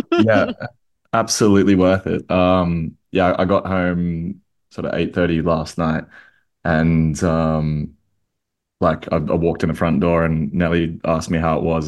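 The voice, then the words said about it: Slightly hoarse voice. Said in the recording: “you're a little hoarse today ... a little hoarse”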